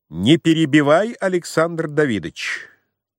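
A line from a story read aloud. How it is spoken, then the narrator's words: Cold. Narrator (Russian): холодно сказал фон Корин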